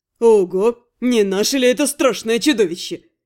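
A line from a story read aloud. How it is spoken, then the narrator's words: Gleefully angry snort. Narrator (Russian): С веселой злостью фыркнул Рент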